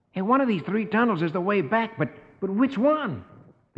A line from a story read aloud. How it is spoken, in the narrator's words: Rusty exclaims